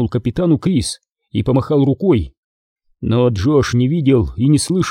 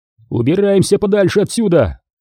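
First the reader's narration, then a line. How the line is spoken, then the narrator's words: Shouted. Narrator (Russian): крикнул Редфилд Джошу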